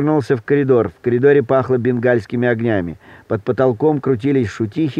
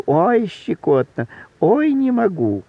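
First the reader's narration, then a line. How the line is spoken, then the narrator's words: Giggling and squealing. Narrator (Russian): Он хихикал и взвизгивал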